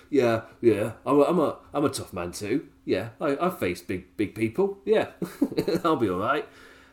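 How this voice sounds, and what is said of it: Imitates another person's voice. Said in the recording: “My Jericho accent needs some work.”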